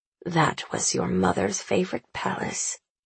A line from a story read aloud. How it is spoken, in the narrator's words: Annabelle mutters at his side, forgetting herself